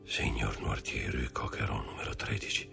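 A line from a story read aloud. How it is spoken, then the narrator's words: Frightened murmur. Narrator (Italian): mormorò impallidendo sempre di più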